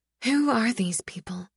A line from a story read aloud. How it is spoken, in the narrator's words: I ask, my voice soft in the following stillness